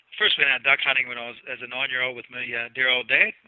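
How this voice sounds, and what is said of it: New Zealand accent. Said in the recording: “you probably pick up from the accent, I'm a Kiwi”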